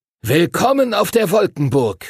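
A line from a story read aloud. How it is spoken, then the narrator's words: Calling out. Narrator (German): rief Master Duncan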